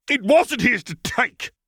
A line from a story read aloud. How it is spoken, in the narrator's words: he shouted